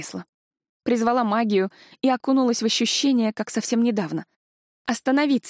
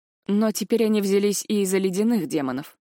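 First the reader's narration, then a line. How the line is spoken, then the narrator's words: Gloomy remark. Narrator (Russian): мрачно заметил Дайт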